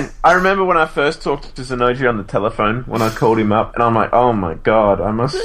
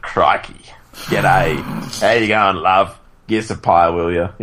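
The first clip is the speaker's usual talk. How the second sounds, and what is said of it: Exaggerated broad ocker Australian accent. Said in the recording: “I must sound like just some backwater ... I must sound like the Australian equivalent of a hillbilly to him ... he's got a cultured Melbourne accent, whereas I've got this”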